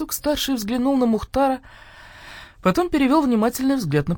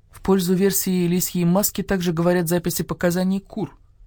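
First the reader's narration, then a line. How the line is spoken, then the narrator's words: Plain. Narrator (Russian): сказал он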